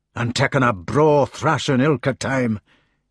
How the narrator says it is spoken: he said bitterly

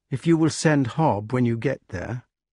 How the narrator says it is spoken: said the wart sadly

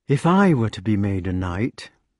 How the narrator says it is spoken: said the wart, staring dreamily

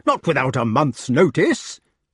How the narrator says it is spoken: cried Sir Ector

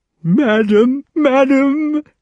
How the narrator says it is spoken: cried the colonel in torture

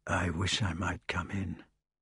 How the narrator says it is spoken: Later, Sir Lancelot whispered

